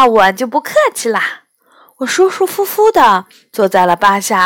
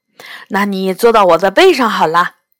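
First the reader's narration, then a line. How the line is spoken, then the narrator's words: Sighing. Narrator (Chinese): 霸下叹了口气说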